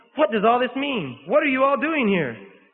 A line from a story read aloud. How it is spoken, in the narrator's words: suddenly raising himself on his elbow, he exclaimed